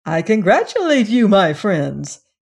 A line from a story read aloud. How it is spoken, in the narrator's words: said, speaking in a cheerful voice